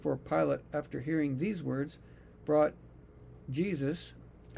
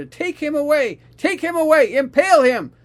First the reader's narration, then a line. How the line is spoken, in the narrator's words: they shouted